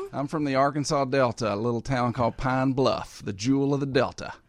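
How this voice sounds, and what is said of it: Southern US accent, Arkansas Delta. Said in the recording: “You'll never get rid of that accent, you know. ... I'm keeping my accent.”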